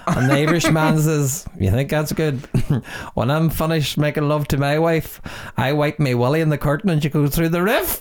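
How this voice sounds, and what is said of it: Put-on accent for joke. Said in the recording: “because of the accent as well”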